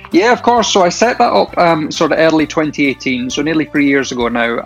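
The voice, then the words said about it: Shetland Isles Scottish accent. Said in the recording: “Originally from the Shetland Isles, you might tell from the accent.”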